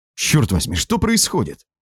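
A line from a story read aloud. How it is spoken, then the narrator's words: Exclaiming. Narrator (Russian): воскликнул я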